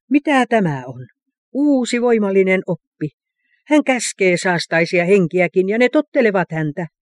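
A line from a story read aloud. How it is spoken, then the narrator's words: Exclaimed to one another. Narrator (Finnish): he huudahtivat toisilleen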